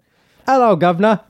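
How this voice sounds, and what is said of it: Deliberately bad put-on British accent. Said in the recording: “you have to do a British accent ... I don't want to try to do a British accent and then just like do it horribly. So I'll just like... satirically do that.”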